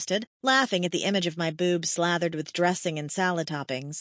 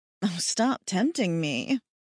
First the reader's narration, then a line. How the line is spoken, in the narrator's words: chuckled